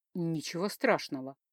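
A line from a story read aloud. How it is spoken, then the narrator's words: Hissed through teeth. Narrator (Russian): сквозь зубы прошипел тот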